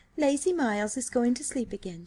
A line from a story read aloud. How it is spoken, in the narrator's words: she said